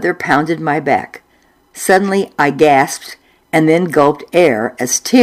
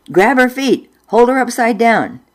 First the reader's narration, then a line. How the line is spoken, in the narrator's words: Mother yelled at Dad